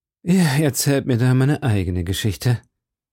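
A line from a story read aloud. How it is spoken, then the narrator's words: Deep sighing. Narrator (German): sagte D'Artagnan tief seufzend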